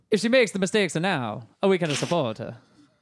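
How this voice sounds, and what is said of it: Put-on Italian accent. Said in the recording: “Can you say that in an Italian accent?”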